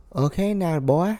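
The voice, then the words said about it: Imitates another person's voice. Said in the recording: “your best Martha Stewart impersonation ... Why is everybody boy? Why is every impersonation boy?”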